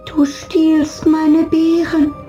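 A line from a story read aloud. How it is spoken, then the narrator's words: Called out. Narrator (German): rief Nandi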